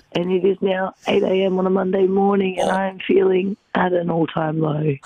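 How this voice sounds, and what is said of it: Rough, worn-out unwell voice. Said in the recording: “You can hear the dust in her voice. Like, mate, she is not well.”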